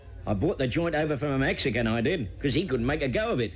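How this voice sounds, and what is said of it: Cockney accent. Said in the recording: “I'm a Cockney”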